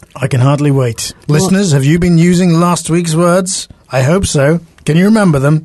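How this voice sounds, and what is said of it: Scottish accent. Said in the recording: “I detect a Scottish accent”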